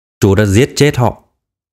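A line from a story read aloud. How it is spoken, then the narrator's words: Cold, clipped. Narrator (Vietnamese): Phổ Phổ lạnh lùng thốt ra mấy chữ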